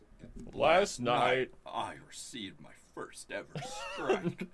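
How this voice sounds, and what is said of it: Markiplier impression. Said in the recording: “do a Markiplier impression ... I'm Markiplier.”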